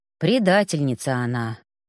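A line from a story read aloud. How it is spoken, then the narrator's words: Disappointed sigh. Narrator (Russian): разочарованно вздохнула я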